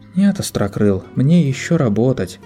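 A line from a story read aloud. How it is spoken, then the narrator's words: Sighing. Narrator (Russian): вздохнула Дерпи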